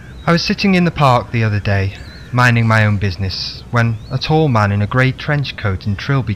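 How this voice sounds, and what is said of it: Usual voice. Nothing is said of it.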